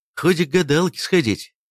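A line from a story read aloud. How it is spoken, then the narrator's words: Laughing. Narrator (Russian): рассмеялся Лев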